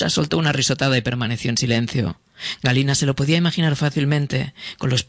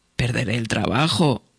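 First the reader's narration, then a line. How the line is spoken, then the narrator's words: Stammering. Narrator (Spanish): balbuceó Galina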